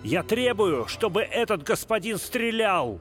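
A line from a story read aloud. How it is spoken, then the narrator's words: Furious shout. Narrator (Russian): Грант крикнул с бешенством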